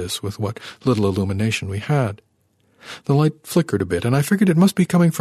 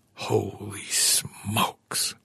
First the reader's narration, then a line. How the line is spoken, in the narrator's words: Arno whispered